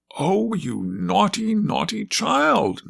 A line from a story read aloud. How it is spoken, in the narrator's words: cried indignantly, for she knew what it was to have a dripping umbrella about your ears